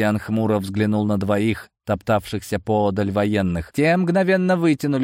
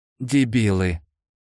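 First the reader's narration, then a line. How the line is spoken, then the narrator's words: Angry. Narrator (Russian): зло обобщил он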